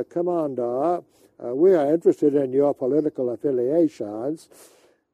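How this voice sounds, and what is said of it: Bobby Kennedy impression, Boston accent. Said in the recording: “trying to imitate the Boston accent.”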